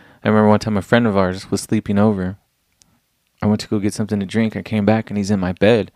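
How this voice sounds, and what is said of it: Usual voice. Nothing is said of it.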